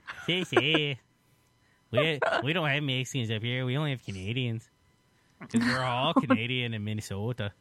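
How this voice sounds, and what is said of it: Mocking Minnesotan accent. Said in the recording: “You making fun of my accent already? ... make fun of my ... Minnesotan ... accent.”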